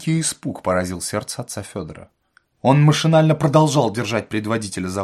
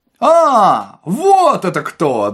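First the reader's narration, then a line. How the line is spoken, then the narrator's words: Friendly shout. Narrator (Russian): дружелюбно закричал Остап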